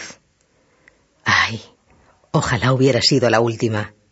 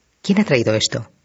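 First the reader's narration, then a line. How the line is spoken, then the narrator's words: Plain question. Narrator (Spanish): preguntó Joaquín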